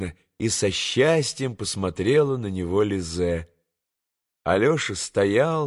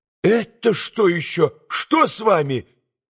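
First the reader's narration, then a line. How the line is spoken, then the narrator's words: Cry out. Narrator (Russian): вскрикнула Лизе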